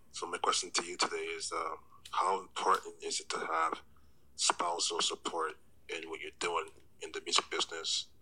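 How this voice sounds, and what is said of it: Smooth radio-style voice. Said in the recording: “a great radio voice”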